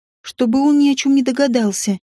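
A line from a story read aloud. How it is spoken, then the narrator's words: Sighing. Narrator (Russian): вздохнула я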